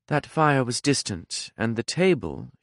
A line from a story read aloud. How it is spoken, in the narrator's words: she said smoothly